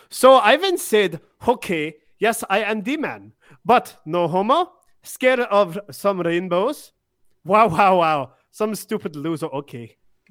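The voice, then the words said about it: Put-on European accent. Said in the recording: “I like reading it in like a European accent.”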